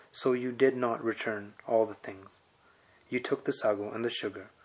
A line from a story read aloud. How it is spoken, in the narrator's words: The superintendent, in a milder tone, replied